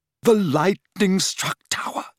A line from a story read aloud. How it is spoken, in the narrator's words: she whispered